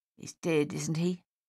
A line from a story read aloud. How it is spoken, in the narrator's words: Dave said gruffly